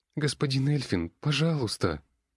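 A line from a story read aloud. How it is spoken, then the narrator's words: Sobbing girl. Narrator (Russian): Девчонка разразилась новыми рыданиями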